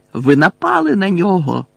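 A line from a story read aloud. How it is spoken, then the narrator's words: Panicked, fearful exclamation. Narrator (Ukrainian): вигукнув Гаррі, намагаючись не зважати на паніку, яка його охоплювала, на жах, з яким він боровся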